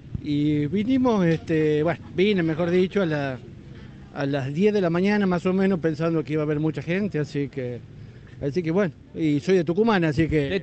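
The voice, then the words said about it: Regional Argentine accent. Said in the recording (Spanish): “te notaba ahí la tonada”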